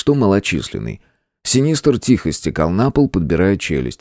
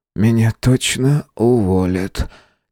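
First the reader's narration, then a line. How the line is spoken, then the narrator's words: Heavy exhale. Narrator (Russian): тяжело выдохнул программист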